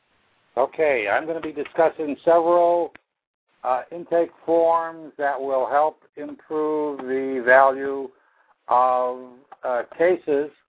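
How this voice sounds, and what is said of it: Slightly hoarse voice. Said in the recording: “little hoarse here”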